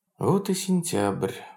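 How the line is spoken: Sudden sigh. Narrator (Russian): вздохнула вдруг Анна Алексеевна

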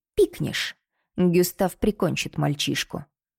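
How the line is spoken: Quiet and menacing. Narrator (Russian): Голос Анри звучал тихо и угрожающе

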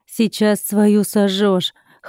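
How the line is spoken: Wry snort. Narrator (Russian): хмыкнул я

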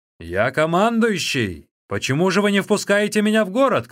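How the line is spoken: Shouting. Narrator (Russian): крикнул Циньмин

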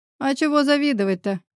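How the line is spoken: Short laugh. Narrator (Russian): хохотнул я

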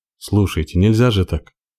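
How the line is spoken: Breathless exhale. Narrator (Russian): выдохнул он

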